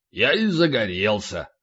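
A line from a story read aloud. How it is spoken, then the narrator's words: Snorting grunt. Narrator (Russian): полубой хмыкнул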